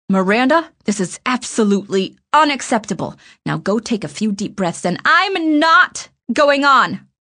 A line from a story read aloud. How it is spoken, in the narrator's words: I said loudly, and the tears came to my eyes fairly easily